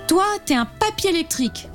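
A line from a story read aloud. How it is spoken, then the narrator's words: Exclaiming with a smile. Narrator (French): s'écrie-t-elle en lui souriant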